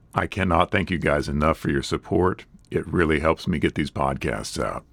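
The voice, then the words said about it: Slightly ragged, rough voice. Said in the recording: “My voice is a little ragged this week.”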